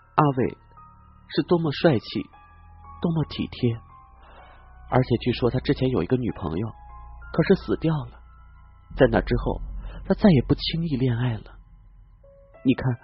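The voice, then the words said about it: Gentle, soft character voice. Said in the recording (Chinese): “用温柔的声音说”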